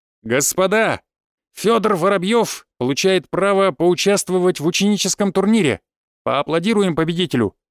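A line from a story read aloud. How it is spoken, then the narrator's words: Loud announcement. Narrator (Russian): выкрикнул Крапивин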